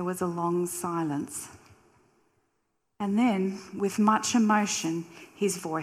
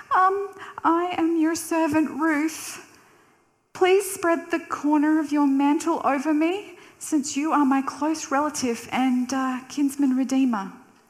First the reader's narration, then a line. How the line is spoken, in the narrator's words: Nervously replied